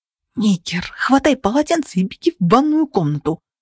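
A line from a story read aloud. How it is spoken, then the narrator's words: Hissed. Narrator (Russian): прошипела я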